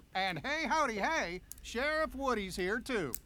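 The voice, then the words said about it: Poor Sheriff Woody impersonation. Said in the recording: “worst Woody impersonation ever”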